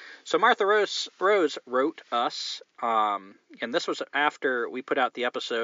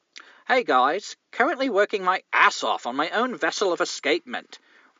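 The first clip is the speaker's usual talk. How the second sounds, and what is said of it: Attempted English accent. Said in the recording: “let's see if I can do an English accent.”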